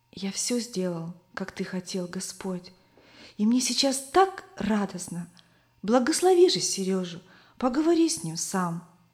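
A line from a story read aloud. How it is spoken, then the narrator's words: Boy whispering prayer. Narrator (Russian): мальчик шептал Иисусу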